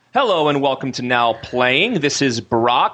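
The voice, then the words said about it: Announcer-style radio voice. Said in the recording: “he had his radio voice.”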